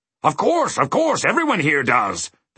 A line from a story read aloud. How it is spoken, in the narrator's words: the king grunted